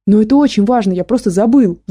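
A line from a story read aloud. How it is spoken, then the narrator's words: Shouted out. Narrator (Russian): выкрикнул Гошка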